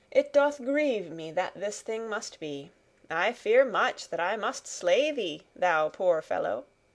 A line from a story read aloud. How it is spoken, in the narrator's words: said the stranger sadly